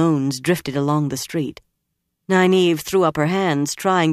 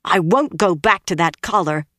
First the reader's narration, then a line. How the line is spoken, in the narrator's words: Egwene said fiercely